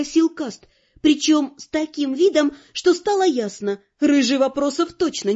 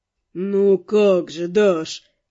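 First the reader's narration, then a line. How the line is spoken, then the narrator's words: Lazy drawl. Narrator (Russian): Протянул Пижон с линцой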